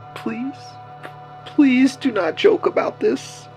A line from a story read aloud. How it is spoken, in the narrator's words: he whimpered on the phone